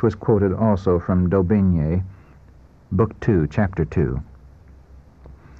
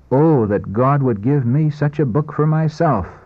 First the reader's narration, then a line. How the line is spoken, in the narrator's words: With quickened pulse and throbbing heart, exclaim